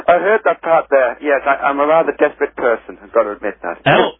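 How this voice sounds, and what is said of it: Northeast English accent. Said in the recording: “it sounds like you've got a bit of an accent ... I'm from the northeast of England”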